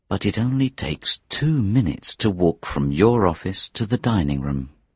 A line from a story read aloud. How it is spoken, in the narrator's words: the inspector said quietly